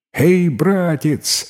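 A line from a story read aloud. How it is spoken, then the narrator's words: Young man's cheerful shout. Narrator (Russian): весело крикнул из окна юноша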